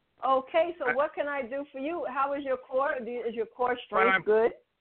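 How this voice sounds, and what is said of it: Speaks with a noticeable accent. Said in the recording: “I'm saying it must be my accent.”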